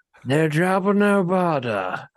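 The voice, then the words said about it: Alien character impression, British-sounding. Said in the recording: “That was my impression... He got more British the second time.”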